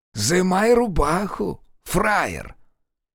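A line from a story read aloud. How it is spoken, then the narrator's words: Snakelike hiss. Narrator (Russian): По-змеиному зашипел Фикса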